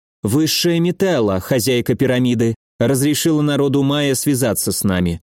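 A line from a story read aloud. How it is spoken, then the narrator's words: Cold. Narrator (Russian): холодно сказала Роза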